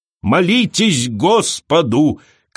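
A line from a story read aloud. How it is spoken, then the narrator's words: Shouting. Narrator (Russian): кричала она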